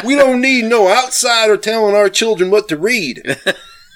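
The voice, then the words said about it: Put-on accent. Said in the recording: “That was a good one. That's a good one. Accent.”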